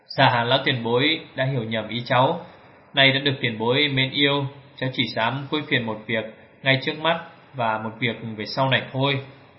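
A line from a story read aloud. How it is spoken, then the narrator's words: Smiling. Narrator (Vietnamese): Thượng Quan Linh mỉm cười rằng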